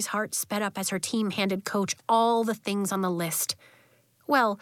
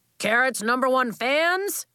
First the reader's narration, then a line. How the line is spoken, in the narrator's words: Coach yelled